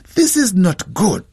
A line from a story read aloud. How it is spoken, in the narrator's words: his father-in-law exclaimed